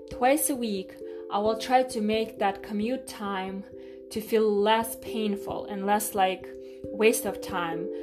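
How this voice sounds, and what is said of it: Woman speaking with a foreign accent. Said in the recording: “that girl with an accent”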